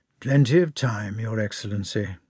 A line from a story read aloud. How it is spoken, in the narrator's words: muttered Kutuzov in the midst of a yawn